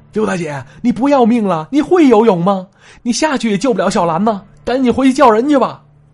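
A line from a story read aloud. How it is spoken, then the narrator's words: Shout, older women. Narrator (Chinese): 这些同伴、这些大妈喊了一嗓子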